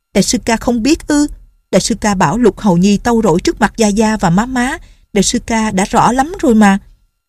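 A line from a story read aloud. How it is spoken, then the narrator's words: Resentful. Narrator (Vietnamese): Nhạc Linh Sang hậm hực nói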